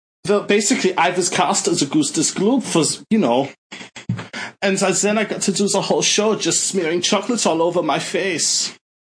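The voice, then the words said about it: Comedic exaggerated German accent. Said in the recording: “a comedic German accent ... Tell the rest of the story in that accent. ... That's pretty good. ... my German accent comes entirely from British television making fun of the Germans.”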